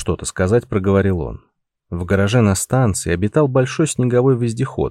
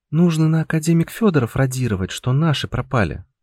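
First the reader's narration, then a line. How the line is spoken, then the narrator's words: Sighing. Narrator (Russian): вздохнула Анюта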